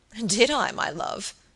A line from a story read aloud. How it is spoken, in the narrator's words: said the baronet, laughing